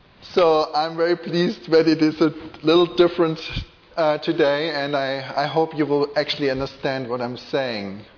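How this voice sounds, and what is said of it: German-accented English. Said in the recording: “I do speak with a funny accent ... my German accent”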